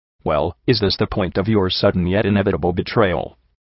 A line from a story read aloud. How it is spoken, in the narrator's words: I asked dryly